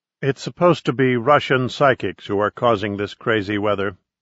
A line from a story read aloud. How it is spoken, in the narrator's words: Babette said